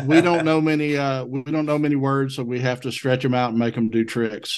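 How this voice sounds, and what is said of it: Southern US accent. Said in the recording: “you need a lesson in Southern dialect ... as a Southerner, my dialect is closer to the King's English than any other accent in the United States”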